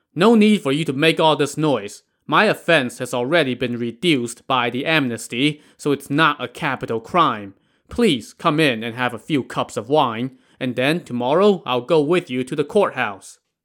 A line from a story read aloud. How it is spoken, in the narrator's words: Song Jiang called out to the constables